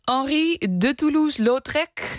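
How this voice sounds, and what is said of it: Put-on French accent. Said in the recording (Dutch): “zeg ik met mijn beste Franse accent”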